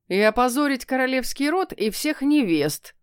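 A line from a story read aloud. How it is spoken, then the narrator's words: Chuckling cat from below. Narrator (Russian): хохотнул кот внизу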